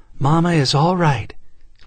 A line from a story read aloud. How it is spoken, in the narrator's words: Lindy managed to gasp